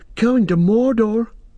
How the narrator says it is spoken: cried Pippin

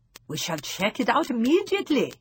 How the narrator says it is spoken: my grandmother cried

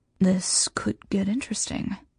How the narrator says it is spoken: he murmurs, a wicked gleam in his eyes

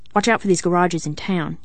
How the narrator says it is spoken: he said sharply

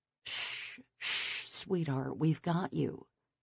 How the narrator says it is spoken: Trey murmured

